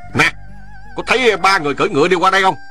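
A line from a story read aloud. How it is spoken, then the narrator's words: Loud shouted question. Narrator (Vietnamese): Hắn lớn tiếng quát hỏi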